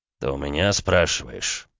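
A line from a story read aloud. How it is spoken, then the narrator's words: Angry hiss through teeth. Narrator (Russian): зло процедил граф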